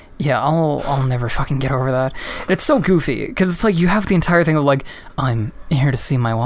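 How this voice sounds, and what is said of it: Usual voice. Nothing is said of it.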